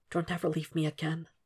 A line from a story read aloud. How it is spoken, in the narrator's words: Will accepts the kiss that comes with more tears and whispers